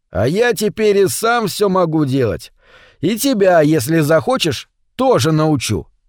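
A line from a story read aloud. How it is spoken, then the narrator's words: Shouting into phone. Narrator (Russian): кричал Витя в телефонную трубку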